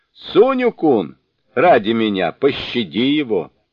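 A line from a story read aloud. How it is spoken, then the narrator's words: Shouting. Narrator (Russian): Бодхисаттва Майтрея крикнул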